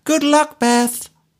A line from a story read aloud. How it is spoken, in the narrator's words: Three of the women shouted over to her